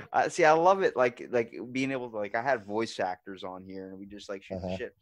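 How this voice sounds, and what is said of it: Usual voice. Nothing is said of it.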